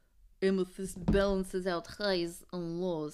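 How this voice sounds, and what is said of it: Put-on accent. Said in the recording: “I don't know why I'm doing this accent.”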